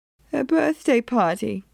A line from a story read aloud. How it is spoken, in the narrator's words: Mage said, and her voice wobbled